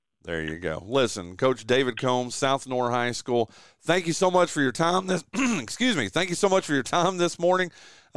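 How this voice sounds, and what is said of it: Hoarse, failing voice. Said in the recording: “I'm losing my voice”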